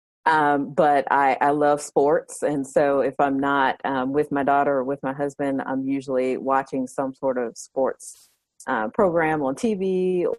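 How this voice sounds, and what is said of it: Southern American accent. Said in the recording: “I am definitely Southern, if you can't hear it in my accent.”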